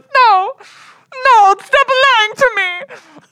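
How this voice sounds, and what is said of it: Imitates an actress's put-on accent. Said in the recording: “That's a perfect impression. ... my impression of Natalie Wood trying to do that accent”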